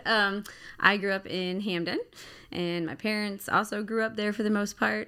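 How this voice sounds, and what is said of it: Baltimore accent. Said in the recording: “You hear the accent? ... I can bring it on and take it off as needed.”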